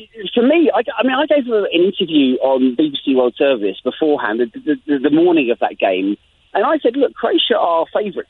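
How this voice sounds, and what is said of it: English accent. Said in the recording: “as you can tell from my accent, I'm English ... I speak with an English accent”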